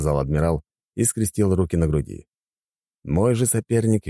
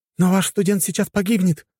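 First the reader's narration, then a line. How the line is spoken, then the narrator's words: Exclaimed. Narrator (Russian): воскликнула Химари-сэмпай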